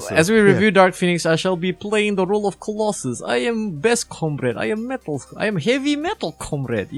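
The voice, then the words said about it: Deliberately bad put-on Russian accent. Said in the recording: “I shall be doing this bullshit Russian accent for the entire...”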